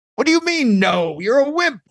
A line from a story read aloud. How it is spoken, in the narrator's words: they shouted